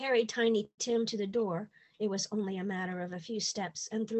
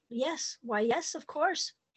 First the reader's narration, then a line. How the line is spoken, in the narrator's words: Her mouth and eyes formed large O's as she stammered out